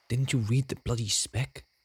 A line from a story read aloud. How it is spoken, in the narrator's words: hissed Esky